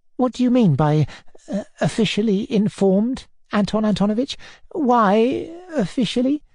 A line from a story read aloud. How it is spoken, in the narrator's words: asked timidly